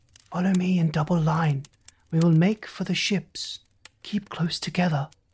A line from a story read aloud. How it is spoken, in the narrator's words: I whispered